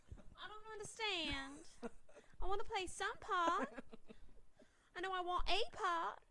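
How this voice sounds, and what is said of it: Put-on Southern accent. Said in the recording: “You're getting better at the Southern accent.”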